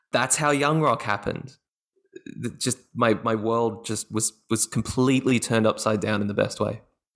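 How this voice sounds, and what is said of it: Australian accent. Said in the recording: “your Australian accent that you have”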